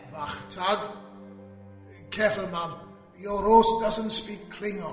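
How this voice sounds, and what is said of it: Welsh accent. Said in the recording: “that stupid accent ... I may be Welsh for some time to come.”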